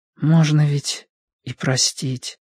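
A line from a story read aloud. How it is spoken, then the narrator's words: Whispering. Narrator (Russian): шепотом выговорил Гриша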